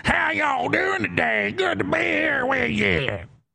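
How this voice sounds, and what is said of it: Exaggerated fake southern accent. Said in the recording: “some fake voice... It's not even a Kentucky accent... It's like some weird southern accent”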